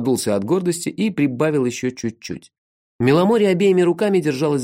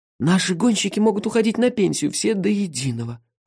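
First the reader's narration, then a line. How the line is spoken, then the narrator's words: Sighing. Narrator (Russian): вздохнул Шихола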